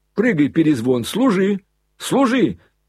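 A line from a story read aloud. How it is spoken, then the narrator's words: Yelling. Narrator (Russian): завопил Коля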